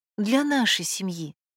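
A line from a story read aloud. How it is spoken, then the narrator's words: Soft correction. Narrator (Russian): мягко поправила Ирина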